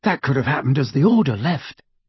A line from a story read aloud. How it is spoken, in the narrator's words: Ron murmured back